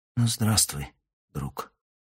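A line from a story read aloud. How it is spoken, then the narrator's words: Whispered. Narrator (Russian): Прошептала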